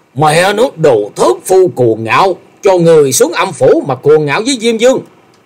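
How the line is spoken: Enraged roar. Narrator (Vietnamese): Gã tiêu sư điên tiết gầm lên

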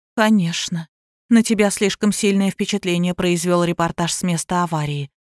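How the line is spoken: Gentle, affectionate. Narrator (Russian): ласково сказала

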